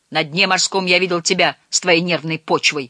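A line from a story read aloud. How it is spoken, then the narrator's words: Yelling hot-tempered man. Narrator (Russian): заорал дядя Солтерс, толстый, вспыльчивый кротышка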